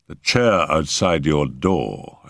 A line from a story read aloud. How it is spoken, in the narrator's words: I remarked dryly